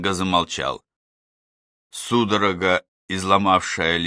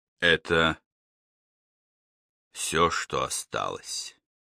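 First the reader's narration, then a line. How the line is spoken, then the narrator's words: Quiet repetition. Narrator (Russian): тихо повторил он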